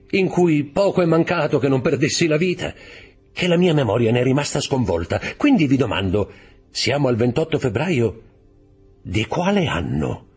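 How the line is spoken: Laughing. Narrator (Italian): disse ridendo Dantès

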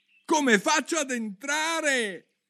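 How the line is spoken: Almost shouting question. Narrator (Italian): chiese Alice quasi gridando

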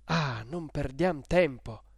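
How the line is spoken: Breathless, pitying, urgent exclamation. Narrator (Italian): esclamò Federigo, ansante di pietà e di sollecitudine

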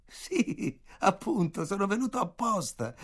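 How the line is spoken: Loud laughing answer. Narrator (Italian): risposi ridendo forte

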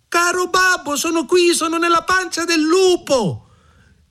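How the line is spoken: Shout. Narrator (Italian): Mignolino udì la voce del padre e gridò

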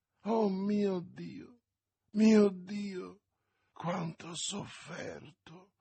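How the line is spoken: Harmonious, seductive murmur. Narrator (Italian): mormorò Milady con la sua voce armoniosa che, simile a quella delle sirene antiche, affascinava tutti coloro di cui voleva la rovina

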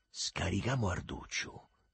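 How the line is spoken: Quick whisper. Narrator (Italian): sussurrò rapido il Lenzetta

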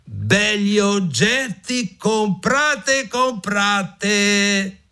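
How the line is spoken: Shouted. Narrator (Italian): gridò

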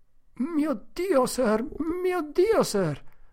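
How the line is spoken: King stammering. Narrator (Italian): balbettò il re di Skookum Benches

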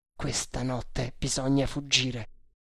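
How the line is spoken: Murmured. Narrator (Italian): mormorò

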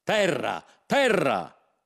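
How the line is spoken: Excited shout. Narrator (Italian): si mise a gridare, come se non l'avesse mai vista

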